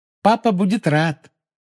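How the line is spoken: Cheerful promise. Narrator (Russian): весело пообещала Полумна

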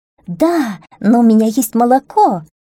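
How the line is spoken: Little goat exclaiming. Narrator (Russian): воскликнула козочка

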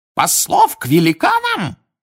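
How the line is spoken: Shrill squeal. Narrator (Russian): взвизгнул Фадж, снова овладев даром речи

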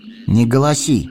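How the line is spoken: Stern. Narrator (Russian): строго сказал он

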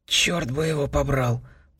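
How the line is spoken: Whispered. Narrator (Russian): прошептал Сэм

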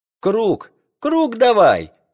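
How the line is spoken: Shouting. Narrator (Russian): кричал я им

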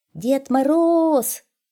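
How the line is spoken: Hedgehog shouting. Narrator (Russian): крикнул ёжик

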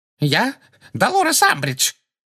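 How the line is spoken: Shrill terrified voice. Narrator (Russian): ответила Амбридж визгливым, насмерть перепуганным голосом

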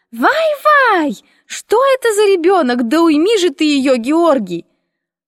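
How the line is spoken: Shrill screechy grandmother. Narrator (Russian): раздался пронзительный и визгливый голос бабушки

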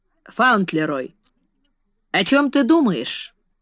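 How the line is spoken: Plain. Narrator (Russian): спросил граф

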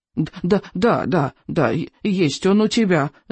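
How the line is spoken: Stammering interruption. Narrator (Russian): заикаясь, встрял он

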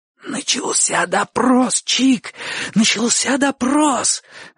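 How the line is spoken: Hoarse wheeze. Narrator (Russian): засипел Бочо

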